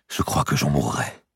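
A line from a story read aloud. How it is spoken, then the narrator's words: Murmured. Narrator (French): murmura-t-il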